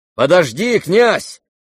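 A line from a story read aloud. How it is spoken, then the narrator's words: Shout. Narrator (Russian): крикнул Рогожин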